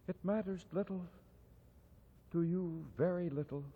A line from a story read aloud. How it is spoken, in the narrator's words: she said softly